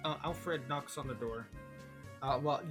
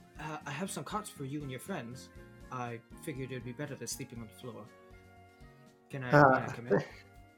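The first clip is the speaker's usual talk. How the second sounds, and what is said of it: Quiet butler character voice. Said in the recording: “you can tell it's Alfred because he says, Mr. Bruce, he says in a quiet voice.”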